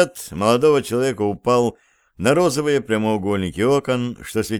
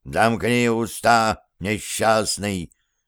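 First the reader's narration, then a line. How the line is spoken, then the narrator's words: Menacing interruption. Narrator (Russian): грозно оборвал его колдун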